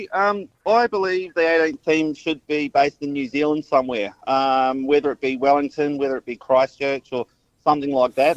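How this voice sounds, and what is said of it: Slight New Zealand accent. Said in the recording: “Do I detect a little New Zealand accent in your... Yeah. Sure do.”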